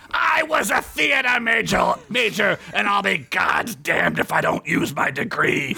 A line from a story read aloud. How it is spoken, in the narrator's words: Burgundy screamed in rage